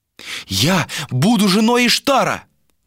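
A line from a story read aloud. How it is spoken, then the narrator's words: Exclaimed. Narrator (Russian): воскликнула Галисия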